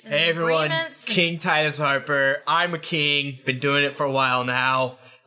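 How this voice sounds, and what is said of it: Booming kingly character voice. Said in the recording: “I say in a booming voice.”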